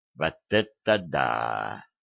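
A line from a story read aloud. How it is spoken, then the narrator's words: Drawn-out. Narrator (Russian): протянул Кошкин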